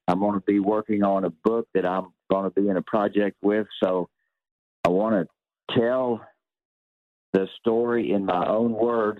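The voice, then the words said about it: Southern American accent. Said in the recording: “the way I speak with my Southern accent”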